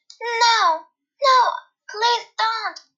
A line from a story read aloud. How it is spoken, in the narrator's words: the little mouse cried